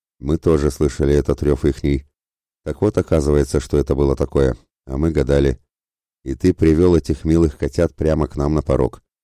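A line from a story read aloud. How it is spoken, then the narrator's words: Grim grumble. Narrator (Russian): проворчал мрачно Калояр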